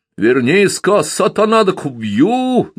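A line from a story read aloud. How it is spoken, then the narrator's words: Booming bass shout. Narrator (Russian): зычным басом кричал он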